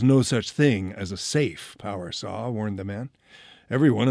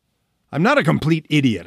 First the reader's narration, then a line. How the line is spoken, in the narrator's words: I snapped